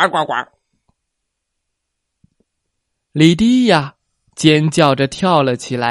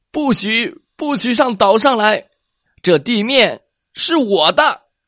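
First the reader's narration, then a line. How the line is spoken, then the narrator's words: Shouting. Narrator (Chinese): 鲁伯特也大叫道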